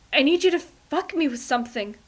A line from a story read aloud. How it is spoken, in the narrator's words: Ray, near coming, gasps